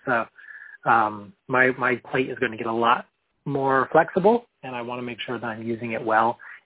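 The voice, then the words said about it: Tired-sounding voice. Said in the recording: “if I sound a little tired, I am a little tired”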